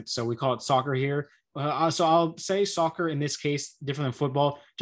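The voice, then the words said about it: American English accent. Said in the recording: “I'm an American, obviously, if you can tell by the accent.”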